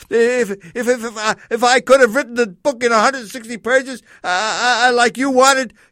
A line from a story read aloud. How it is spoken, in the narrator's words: he stammered like a little child